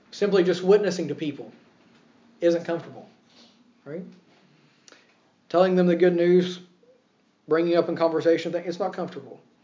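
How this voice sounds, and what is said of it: American accent. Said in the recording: “Yes, I'm an American. Yes, people hear my accent. That sticks out.”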